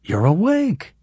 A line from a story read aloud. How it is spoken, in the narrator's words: the woman exclaimed